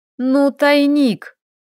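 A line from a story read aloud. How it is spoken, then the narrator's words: Sighing. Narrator (Russian): Она вздохнула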